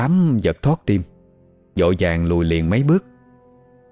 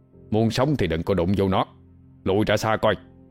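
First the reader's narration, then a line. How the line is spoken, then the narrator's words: Harsh low hiss. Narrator (Vietnamese): ông Út quát khẽ, giọng gằn lại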